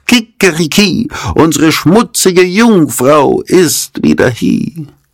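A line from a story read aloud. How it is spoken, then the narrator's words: Rooster calling. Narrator (German): der Hahn auf dem Brunnen rief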